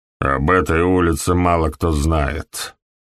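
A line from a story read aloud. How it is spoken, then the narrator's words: Grumbling. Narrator (Russian): пробурчал доктор Фелл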